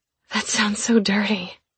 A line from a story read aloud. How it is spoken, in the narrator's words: I said breathlessly